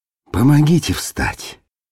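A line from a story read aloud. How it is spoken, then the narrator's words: Weak, exhausted request. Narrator (Russian): Слабым голосом попросил Ребус, у которого сил, казалось, только и хватало на то, чтобы курить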